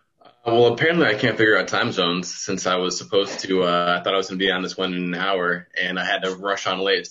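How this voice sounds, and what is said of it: American accent. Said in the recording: “you have a stateside accent. You are an American citizen.”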